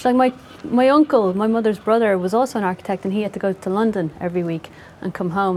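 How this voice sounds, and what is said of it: Dublin Irish accent. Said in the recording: “I speak with this accent, Dublin.”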